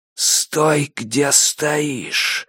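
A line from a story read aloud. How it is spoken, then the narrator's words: Creaky disguised whisper. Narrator (Russian): мужчина говорил скрипучим шепотом, будто хотел замаскировать индивидуальные особенности голоса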